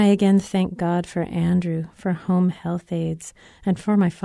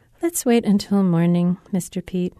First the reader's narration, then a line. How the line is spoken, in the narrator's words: says Andrew, just as calmly